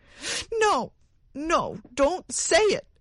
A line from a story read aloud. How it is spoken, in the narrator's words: cried the woman wildly